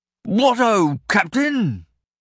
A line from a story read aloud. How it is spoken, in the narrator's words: Burlow called out at Makin, his voice still hoarse from Reich's strangling